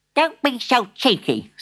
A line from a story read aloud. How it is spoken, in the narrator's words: snapped Granny